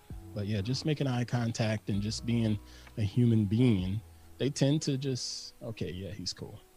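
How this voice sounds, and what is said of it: Slow Southern drawl. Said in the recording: “I speak so slowly. Me and my southern drawl.”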